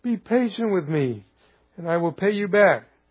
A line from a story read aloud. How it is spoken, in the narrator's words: His fellow servant begged him